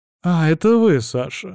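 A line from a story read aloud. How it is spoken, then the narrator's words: Exclamation, woman. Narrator (Russian): воскликнула потенциальная теща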